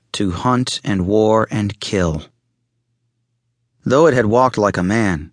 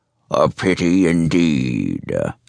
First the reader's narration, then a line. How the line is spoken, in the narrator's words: the monster growled